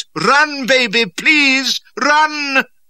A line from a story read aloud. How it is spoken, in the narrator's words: as Charlie still hesitated, petrified, Burns yelled in an agonized voice